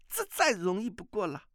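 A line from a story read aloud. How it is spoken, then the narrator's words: Young woman, laughing. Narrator (Chinese): 那少女笑着说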